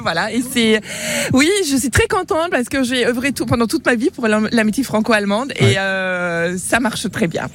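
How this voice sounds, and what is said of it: Slight German accent in French. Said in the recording (French): “On a cru percevoir un léger accent. Il vient d'où ce très léger accent? C'est pas tout à fait l'accent de Bézouat ... Il vient du Nord, il vient d'Allemagne.”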